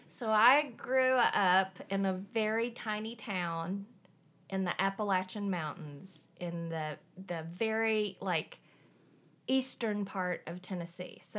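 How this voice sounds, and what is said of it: Slight Appalachian American accent. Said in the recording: “you have a little bit of an accent”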